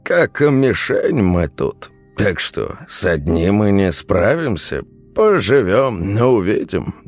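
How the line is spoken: Old man sighing. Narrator (Russian): дед вздохнул

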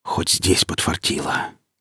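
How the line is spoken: Relieved exhale. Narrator (Russian): С облегчением выдохнул сталкер

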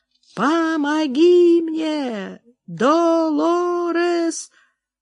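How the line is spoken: Moaning. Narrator (Russian): Я застонала

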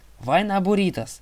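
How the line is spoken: Satyr yelling. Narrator (Russian): завопил сатир

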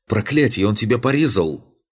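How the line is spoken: Shout. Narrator (Russian): крикнул кто-то

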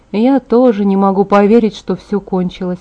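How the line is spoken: Muttering. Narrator (Russian): пробормотала

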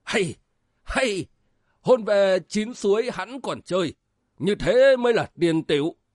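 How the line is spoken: Gleeful old man exclaiming. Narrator (Vietnamese): lão đắc ý la lên

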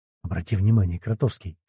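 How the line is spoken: Whisper. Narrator (Russian): шепнула мне Ева

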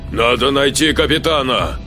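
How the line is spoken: Shouting. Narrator (Russian): крикнул Саид

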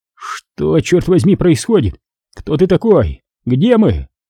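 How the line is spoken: Weak, frightened question. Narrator (Russian): голос выдавал его, прозвучав слабо и испуганно, когда он спросил

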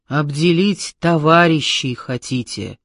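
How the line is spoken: Stern scolding. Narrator (Russian): грозно стыдила она

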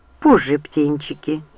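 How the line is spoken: Gentle, young man. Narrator (Russian): ласково сказал юноша

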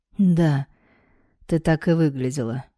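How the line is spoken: Hoarse. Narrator (Russian): хрипло произнес Дарт

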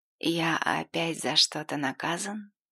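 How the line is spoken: Drunken voice question. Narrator (Russian): Дима пьяным голосом спросил

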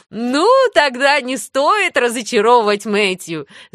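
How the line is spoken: Laughing woman. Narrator (Russian): засмеялась дама

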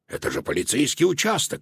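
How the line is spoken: Exclaiming. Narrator (Russian): воскликнул Додо

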